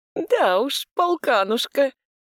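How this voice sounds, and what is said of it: Mocking imitation of another's voice. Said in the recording (Russian): “передразнил”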